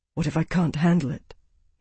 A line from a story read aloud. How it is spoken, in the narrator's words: he said quietly